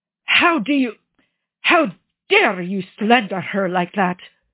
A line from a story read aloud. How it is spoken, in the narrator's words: Gian Vittorio growls